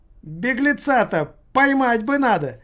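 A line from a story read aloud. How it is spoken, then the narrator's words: Squeaky voice. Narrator (Russian): проговорила писклявым голосом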